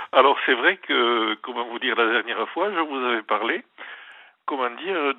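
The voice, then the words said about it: Southwestern French accent. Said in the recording (French): “vous me reconnaissez à mon accent? ... C'est l'accent du Sud-Ouest.”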